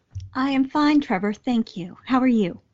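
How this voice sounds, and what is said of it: Robotic announcer voice. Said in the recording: “You seem to be caught on some sort of automatic switch there. I think you need to go back into human mode ... professional killer robot announcer ... Your disembodied voice is threatening”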